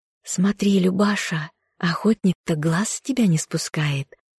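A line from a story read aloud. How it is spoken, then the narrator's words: Whisper in ear. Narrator (Russian): Весняна зашептала на ухо подруге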